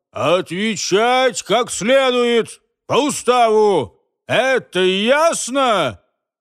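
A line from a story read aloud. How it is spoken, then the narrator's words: Sharp dissatisfied shout. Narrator (Russian): Не удовлетворившись их мычанием сполна, майор еще раз резко прокричал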